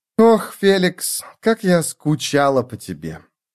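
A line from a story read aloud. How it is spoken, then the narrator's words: Sighing. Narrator (Russian): Она вздохнула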